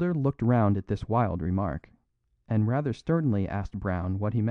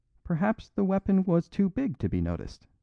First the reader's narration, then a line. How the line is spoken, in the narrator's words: said the priest, with an odd little giggle